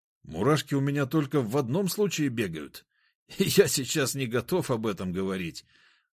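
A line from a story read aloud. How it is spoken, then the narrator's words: Burst out laughing. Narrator (Russian): расхохотался он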